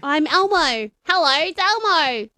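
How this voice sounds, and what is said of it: Elmo character voice, American accent. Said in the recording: “With an American accent ... I'm speaking in an American accent.”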